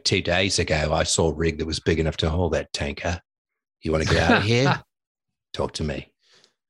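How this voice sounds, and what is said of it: Put-on average Australian accent. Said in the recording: “It's an Australian accent, I've got to say. ... we're in the pantheon of average accents”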